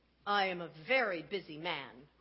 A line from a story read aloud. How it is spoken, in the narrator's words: grumbled the woodcarver